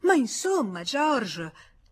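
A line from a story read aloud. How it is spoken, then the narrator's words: Exclamation. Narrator (Italian): esclamò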